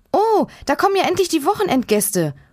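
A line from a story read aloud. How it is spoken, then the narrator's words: Excited call. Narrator (German): ruft Hanna aufgeregt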